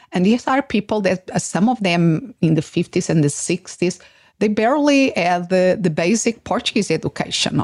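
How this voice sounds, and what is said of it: Non-native English accent. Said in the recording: “I will never lose my accent”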